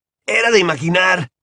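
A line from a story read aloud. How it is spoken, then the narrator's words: Shouted. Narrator (Spanish): gritó Ron, al tiempo que una tormenta de aplausos y vítores inundaba el gran comedor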